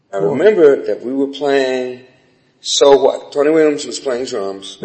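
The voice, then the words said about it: Slight American accent. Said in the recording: “This is a bit of an American accent.”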